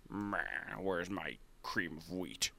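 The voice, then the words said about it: Imitates another person's voice. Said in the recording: “bad Dave Gettleman impersonations. I don't even know how he sounds.”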